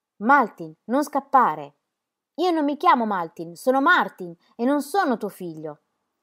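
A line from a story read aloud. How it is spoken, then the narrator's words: Furious thunderous shout. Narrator (Italian): Fuori di sé con voce di tuono gridò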